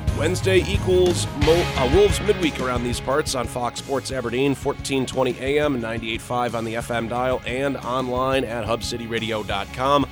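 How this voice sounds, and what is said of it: Slightly raspy voice. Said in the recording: “You can tell the voice is a little raspy”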